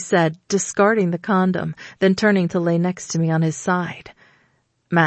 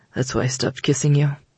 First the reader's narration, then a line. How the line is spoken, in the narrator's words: he muttered